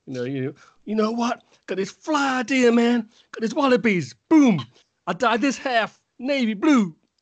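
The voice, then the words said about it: Poor put-on American accent. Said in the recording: “My American accent is terrible”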